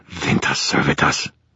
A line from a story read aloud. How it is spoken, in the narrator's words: hissed, nice and dramatic